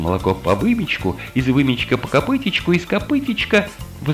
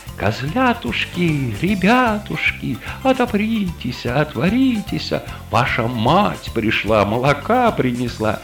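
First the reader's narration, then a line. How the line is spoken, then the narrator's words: Thin high wheedling voice. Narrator (Russian): волк начал причитывать тонюсеньким голосом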